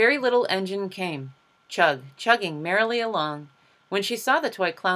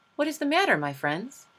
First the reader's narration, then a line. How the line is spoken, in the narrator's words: asked kindly